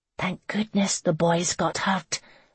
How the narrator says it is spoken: Megan murmured

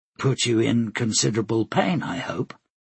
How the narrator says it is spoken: Flora said flatly

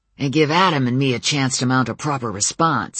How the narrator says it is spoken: Samuel growled

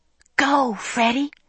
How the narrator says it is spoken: I whispered

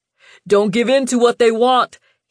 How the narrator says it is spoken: he cried

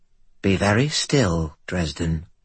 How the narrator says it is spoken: Kumori said, her voice soft

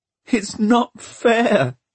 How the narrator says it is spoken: he sobbed

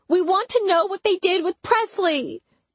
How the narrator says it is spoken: Tatum cried

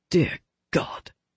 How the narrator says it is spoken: under his breath

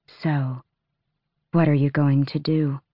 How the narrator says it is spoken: Astrin asked softly, but not weakly

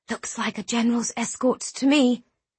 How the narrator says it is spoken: Eliana whispered

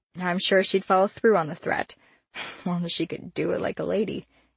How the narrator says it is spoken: laughed

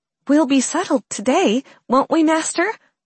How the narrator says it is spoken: Riley asked, her voice bright and chipper

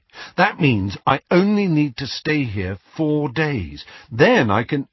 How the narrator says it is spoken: Ron corrected him firmly

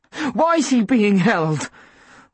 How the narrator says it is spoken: Mum asked, her voice shaking, but it was hard to tell whether it shook with fear or anger

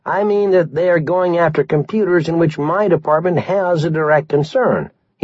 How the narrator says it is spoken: he said hastily

